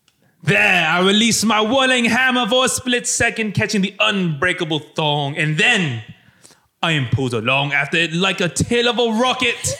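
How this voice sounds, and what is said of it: Imitates Thor's voice. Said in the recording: “my worst Thor impression”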